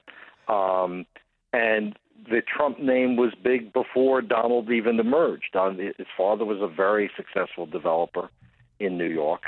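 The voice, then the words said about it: New York accent. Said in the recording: “I happen to be from New York. Some of your listeners may tell from my accent.”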